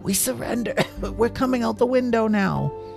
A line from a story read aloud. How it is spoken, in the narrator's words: she yelled to the bad guys outside